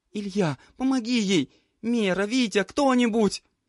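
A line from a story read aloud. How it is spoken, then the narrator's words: Desperate pleading. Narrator (Russian): Взмолилась Николь, стараясь закрыть рану подруги собственной рукой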